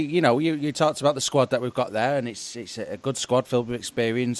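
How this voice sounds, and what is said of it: Usual voice. Nothing is said of it.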